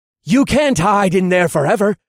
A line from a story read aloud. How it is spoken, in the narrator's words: a guard shouted